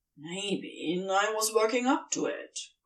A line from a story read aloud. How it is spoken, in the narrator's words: Crowley grumbles, a little insulted